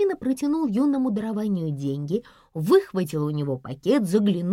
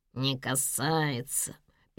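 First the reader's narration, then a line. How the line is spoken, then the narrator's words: Nasal mocking mimicry. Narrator (Russian): передразнил его гнусавый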